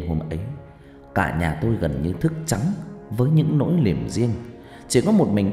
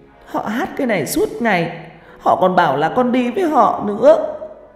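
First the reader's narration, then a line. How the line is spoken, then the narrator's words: Tearful girl, sobbing. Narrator (Vietnamese): con bé mắt ứ nước, nó nói trong tiếng mếu máo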